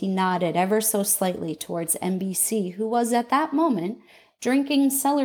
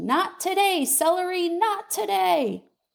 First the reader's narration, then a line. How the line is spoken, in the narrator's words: I sighed a deep sigh that came up from my toes